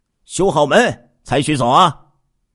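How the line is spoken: Shouting. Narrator (Chinese): 喊着说

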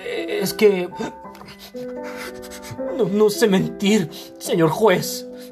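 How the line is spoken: Stammering between hiccups. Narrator (Spanish): balbuceó Gumersindo Tello entre hipos

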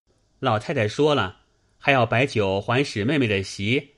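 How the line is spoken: Laughing. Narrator (Chinese): 宝玉笑道

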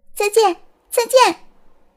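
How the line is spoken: Loud shout. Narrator (Chinese): 蝴蝶大声喊着

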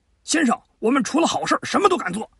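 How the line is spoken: Loud shout in unison. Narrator (Chinese): 阮氏兄弟 齐声高喊

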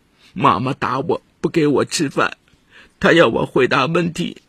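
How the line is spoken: Crying child. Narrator (Chinese): 孩子哭着说

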